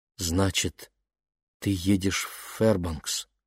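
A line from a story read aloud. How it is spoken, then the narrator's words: Quiet. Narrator (Russian): тихо проговорила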